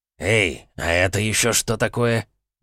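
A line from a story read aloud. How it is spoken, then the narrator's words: Muttered. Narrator (Russian): пробормотал Редж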